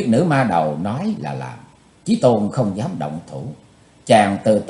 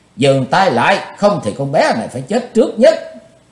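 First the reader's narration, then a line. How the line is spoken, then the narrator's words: Shrill scream. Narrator (Vietnamese): Tần Mỹ Nương thét lanh lảnh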